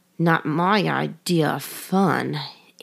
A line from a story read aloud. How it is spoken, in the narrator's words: muttered